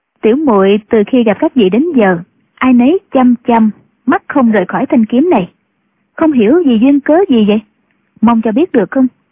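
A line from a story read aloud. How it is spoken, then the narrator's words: Smiling. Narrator (Vietnamese): Triệu Mẫn mỉm cười nói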